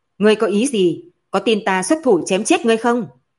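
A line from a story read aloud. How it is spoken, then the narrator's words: Loud. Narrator (Vietnamese): Từ Sở lớn tiếng nói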